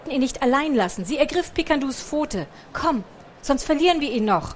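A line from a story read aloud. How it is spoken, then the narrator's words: Calling out. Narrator (German): rief Picandu seufzte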